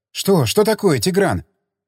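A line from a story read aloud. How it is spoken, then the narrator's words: Agitated. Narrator (Russian): взволнованно заговорила Рита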